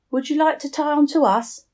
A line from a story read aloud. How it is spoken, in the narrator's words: shouted through cupped hands, hoping to be heard over the wind